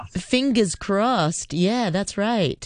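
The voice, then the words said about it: Put-on American accent, not very good. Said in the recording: “I'm saying it in an American accent, probably not a very good one.”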